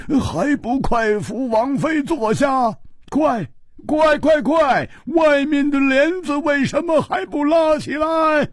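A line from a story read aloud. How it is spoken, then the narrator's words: Rapid, repeated urging. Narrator (Chinese): 秋思王一连声地说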